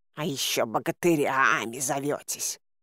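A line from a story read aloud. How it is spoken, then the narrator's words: Hissing. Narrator (Russian): зашипел Баюн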